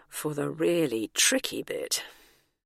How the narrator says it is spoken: muttered apprehensively

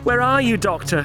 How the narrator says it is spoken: gasped Turlough

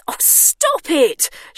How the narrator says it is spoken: shouted Bernice

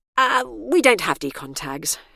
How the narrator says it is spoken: she sighed

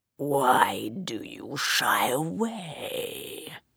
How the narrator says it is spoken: It purred

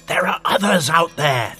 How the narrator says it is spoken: Thalar hissed

